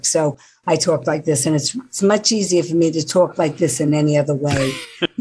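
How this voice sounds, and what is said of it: New York accent. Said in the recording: “I'll speak to you in my native tongue, because originally I was from New York”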